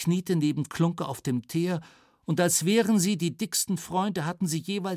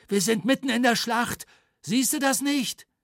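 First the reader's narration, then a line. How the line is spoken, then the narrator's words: Panting. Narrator (German): keuchte Matze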